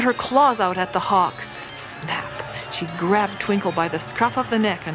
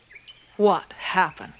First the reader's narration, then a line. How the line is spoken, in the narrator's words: she said sternly